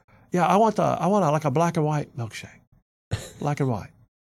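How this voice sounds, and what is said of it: Impression of Joe Biden ordering. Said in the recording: “That's a pretty good impression.”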